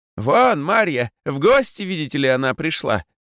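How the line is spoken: Joyful shout. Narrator (Russian): радостно закричала Ираида

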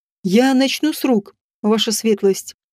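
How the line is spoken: Calm. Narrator (Russian): спокойно сказал он

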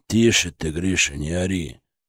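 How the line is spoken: Deep gloating voice. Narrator (Russian): пробасил дядя Федор, но в его голосе Кристина тоже уловила какие-то злорадные нотки

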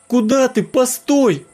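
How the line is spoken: Shouted. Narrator (Russian): Ксюша крикнула

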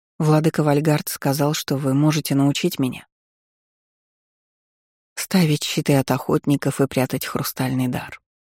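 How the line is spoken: Soft interruption. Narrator (Russian): мягко перебила меня Фейри

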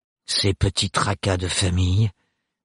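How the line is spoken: Distant voice. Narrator (French): dit d'une voix lointaine

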